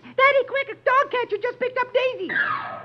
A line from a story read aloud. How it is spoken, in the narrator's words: suddenly his daughter rushes in and shrieks